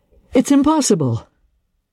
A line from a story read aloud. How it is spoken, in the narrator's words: he exclaimed